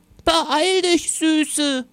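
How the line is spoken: Grandmother calling. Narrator (German): rief Oma

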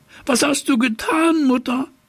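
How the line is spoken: Horrified cry. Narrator (German): rief er entsetzt

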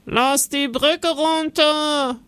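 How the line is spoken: Sudden call from guard. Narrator (German): ruft plötzlich ein Wachmann

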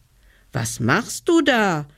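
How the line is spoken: Child calling upward. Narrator (German): rief der kleine Hevelmann hinauf

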